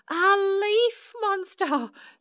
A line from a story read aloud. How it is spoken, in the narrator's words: shrieked Susan and Shirley